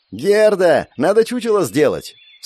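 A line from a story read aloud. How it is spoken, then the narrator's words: Yelled again. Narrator (Russian): снова заорала Клэр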